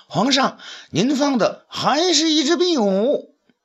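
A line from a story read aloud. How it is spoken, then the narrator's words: Calling out. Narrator (Chinese): 便叫道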